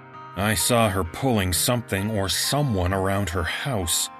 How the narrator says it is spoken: I mumble

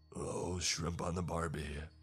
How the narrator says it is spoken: said, in thickly accented English

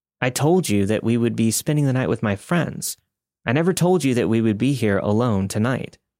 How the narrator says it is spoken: replied

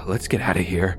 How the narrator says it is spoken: my brother whispered

